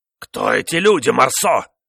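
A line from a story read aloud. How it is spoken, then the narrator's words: Furious shout. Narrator (Russian): в бешенстве крикнул маркиз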